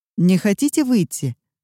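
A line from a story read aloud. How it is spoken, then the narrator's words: Plain question. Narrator (Russian): спросил таксист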